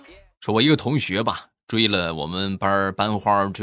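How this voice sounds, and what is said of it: Usual voice. Nothing is said of it.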